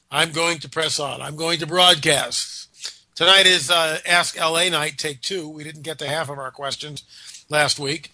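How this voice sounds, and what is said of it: Nasal, congested voice. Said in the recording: “I have been fighting a nasty summer cold all week. If I sound nasally”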